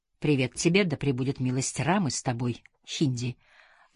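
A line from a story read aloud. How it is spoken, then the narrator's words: Snide hissing greeting. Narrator (Russian): ответил традиционным индусским приветствием, которое у него прозвучало как ехидное шипение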